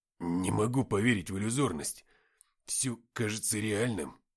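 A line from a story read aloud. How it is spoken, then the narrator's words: Mutter. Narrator (Russian): пробормотал писатель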